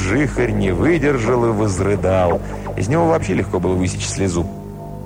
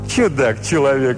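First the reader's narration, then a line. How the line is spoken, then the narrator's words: Laughing hermit. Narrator (Russian): рассмеялся столпник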